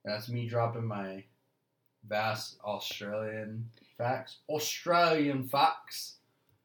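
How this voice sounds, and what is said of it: Put-on Australian accent, slightly British. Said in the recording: “That was a little British. ... that was bad. ... That was a fantastic accent.”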